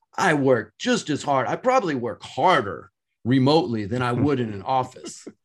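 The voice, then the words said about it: Passionate impression of younger generation. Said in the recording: “your impersonation of the younger generation? Is that how they talk? ... They're so passionate.”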